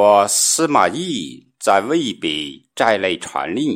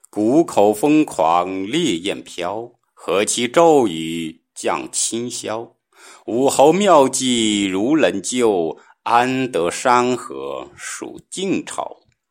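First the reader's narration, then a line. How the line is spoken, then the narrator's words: Sighing recitation. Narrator (Chinese): 后人有诗叹息曰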